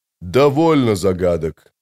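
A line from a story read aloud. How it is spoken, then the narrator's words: Firm but calm. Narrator (Russian): сказал он решительно, но спокойно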